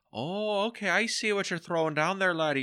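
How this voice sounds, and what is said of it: Put-on Irish accent. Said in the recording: “Irish accent ... he does in my head”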